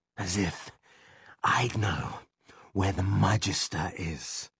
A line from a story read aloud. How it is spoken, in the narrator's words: wheezed